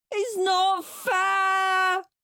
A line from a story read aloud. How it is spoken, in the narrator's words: wailed Henry